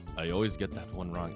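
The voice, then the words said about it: Bad put-on foreign accent. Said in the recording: “Again, bad accent, sorry.”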